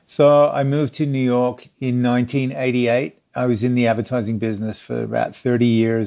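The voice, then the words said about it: Australian accent. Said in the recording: “you're Australian. I know that, but I can tell from the accent.”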